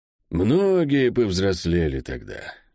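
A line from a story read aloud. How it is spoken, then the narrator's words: Muffled, hollow voice. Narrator (Russian): глухо сказал ей Мильвю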